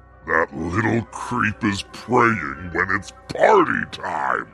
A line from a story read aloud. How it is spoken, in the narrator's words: The devil growling to himself